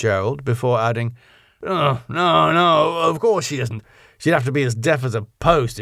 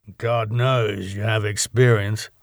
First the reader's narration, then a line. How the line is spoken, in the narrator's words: muttered Gerald